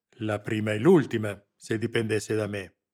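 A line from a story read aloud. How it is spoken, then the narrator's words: Growled. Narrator (Italian): ringhiò Lamberti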